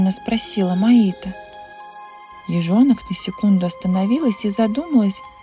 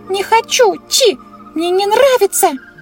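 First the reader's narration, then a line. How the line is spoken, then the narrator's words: Shrill shriek. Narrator (Russian): Завизжала Белла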